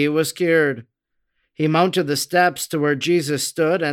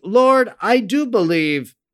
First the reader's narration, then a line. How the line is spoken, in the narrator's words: The sick man instantly arose, exclaiming